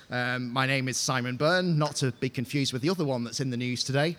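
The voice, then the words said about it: Northwest English accent. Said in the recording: “As you can probably tell from my accent, I'm not from over here, so I live sort of just outside of Preston in the northwest of England”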